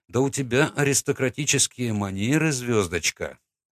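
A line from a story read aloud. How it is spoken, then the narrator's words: Laughing. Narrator (Russian): хохотнул я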